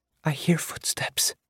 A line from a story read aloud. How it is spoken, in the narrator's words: Eris whispered